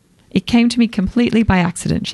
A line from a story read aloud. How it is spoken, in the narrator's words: she said